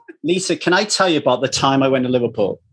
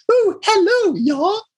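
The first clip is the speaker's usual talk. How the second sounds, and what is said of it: Exaggerated Mary Poppins-style English accent. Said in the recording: “doing an English accent goes all Mary Poppins”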